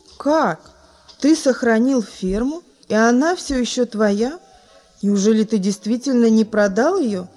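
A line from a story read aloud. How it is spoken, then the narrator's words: Plain question. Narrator (Russian): спросил другой гость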